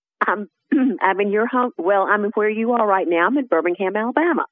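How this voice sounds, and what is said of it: Alabama Southern accent. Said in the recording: “You can probably tell by my accent ... I can talk like you if I need to, darling, but, you know, I'm a Yankee”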